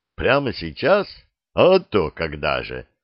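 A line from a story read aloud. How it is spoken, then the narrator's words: Loud laughter. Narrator (Russian): захохотал Ксандр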